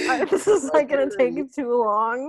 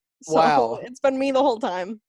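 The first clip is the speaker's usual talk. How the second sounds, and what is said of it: Put-on Midwestern imitation voice. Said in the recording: “pretending to sound like a Midwestern asshole ... This is a great Beck voice. ... I'm still doing the Midwestern asshole voice.”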